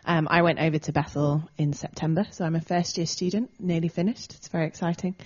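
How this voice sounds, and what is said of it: English accent. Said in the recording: “You'll pick up an English twang to my accent”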